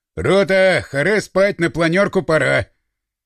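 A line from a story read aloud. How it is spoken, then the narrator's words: Loud shout. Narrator (Russian): Плотников, открыв дверь, громко крикнул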